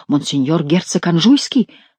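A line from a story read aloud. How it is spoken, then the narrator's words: Exclaiming. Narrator (Russian): воскликнул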